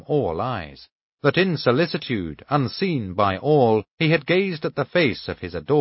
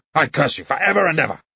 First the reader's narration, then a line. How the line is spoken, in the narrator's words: he shouted, hoarsely, gasping for breath